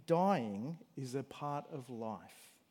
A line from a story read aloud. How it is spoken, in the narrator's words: admonished her gently, saying